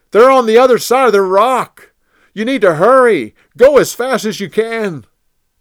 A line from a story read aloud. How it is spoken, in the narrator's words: Jonathan yelled